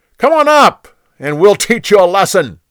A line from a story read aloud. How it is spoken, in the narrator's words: They yelled down to Jonathan